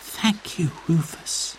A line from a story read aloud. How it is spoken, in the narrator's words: she whispered